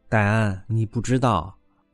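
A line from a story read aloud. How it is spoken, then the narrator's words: Sighing. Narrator (Chinese): 潘金莲长叹一声，说道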